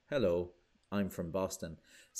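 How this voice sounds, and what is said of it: Put-on Boston accent, deeper voice. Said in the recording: “this is my Boston accent ... it's much deeper than your normal voice”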